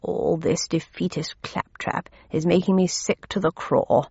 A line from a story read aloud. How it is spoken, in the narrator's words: growled Major Pickles